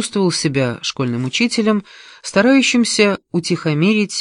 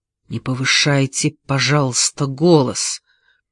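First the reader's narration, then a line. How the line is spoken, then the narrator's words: Hiss. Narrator (Russian): прошипел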